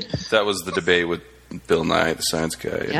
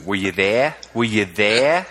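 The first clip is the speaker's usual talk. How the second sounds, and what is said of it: Put-on Australian accent. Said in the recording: “you got to do it in Australian accent.”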